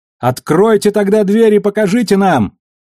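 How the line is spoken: Distant woman's shout. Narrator (Russian): выкрикнул женский голос далеко впереди

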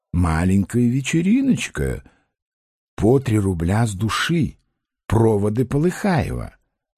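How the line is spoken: Mysterious whisper. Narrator (Russian): таинственно шептал

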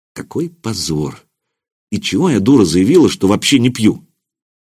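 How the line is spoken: Quiet. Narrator (Russian): Анастасия негромко сказала

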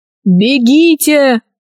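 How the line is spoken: Shouting over noise. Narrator (Russian): крикнул Гайдо, перекрывая шум

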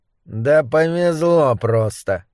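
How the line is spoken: Grumbled. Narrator (Russian): буркнул Моррис

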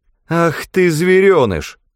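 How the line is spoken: Mad coyote-like laughter. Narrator (Russian): захохотал безумным смехом койота

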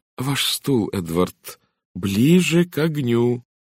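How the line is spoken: Loud and slow. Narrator (Russian): сказала она громко и медленно, словно говорила с глухим

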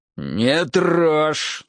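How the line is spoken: Angry growl. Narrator (Russian): снова зарычал, выходя из себя

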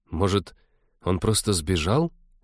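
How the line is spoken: Timid suggestion. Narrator (Russian): робко предположила Кира

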